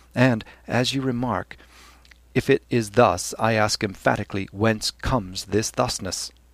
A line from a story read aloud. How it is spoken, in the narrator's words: Glynn coughed and said gently, holding back with difficulty the nervous titter in his voice